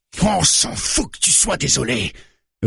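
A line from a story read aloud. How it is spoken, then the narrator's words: Roared, bearded man. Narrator (French): rugit le barbu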